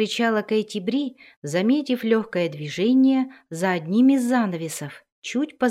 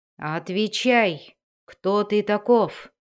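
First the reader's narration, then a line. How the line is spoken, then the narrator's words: Growl. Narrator (Russian): прорычал он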